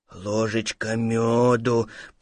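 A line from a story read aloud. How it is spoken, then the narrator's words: Bear cub muttering to himself. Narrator (Russian): пробормотал медвежонок про себя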